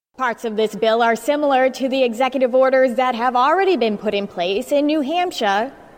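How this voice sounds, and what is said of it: Boston accent. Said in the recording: “Sometimes that Boston accent slips out when you least expect it.”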